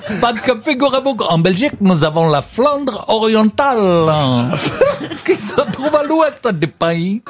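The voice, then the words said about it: Put-on Belgian accent, Chinese-tinged. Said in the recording (French): “Tu fais quel accent? Il y a un chinois qui a l'accent belge.”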